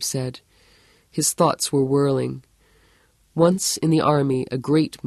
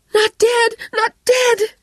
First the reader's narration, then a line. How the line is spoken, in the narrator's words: she cried